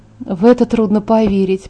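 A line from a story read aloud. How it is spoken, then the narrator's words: Muttering. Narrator (Russian): пробормотала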